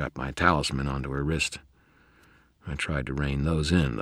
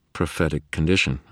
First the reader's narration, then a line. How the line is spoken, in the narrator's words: I said